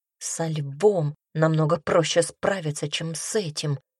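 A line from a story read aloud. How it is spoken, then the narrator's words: Mutter. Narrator (Russian): пробормотала она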